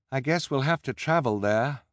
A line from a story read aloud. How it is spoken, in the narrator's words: Violet said with a sigh